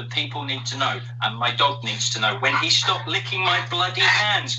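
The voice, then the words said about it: Speaks with a noticeable accent. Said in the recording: “I got distracted by the accent.”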